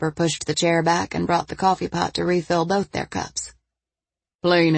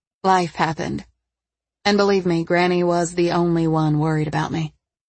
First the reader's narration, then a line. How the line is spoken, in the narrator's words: she said in a flat tone